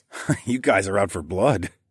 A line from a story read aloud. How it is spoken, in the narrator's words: I laughed as quietly as possible